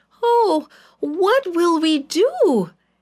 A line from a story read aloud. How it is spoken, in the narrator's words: he cried